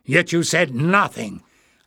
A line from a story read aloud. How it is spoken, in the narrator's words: Barda thundered